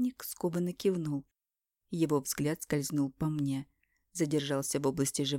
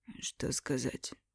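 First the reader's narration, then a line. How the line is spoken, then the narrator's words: Hoarse strained voice. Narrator (Russian): Тот говорил посаженным голосом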